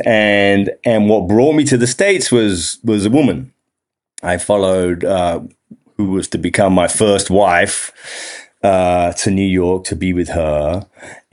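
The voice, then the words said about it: English accent. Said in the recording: “you may already have spotted I have an accent. ... I'm English, an Englishman living abroad”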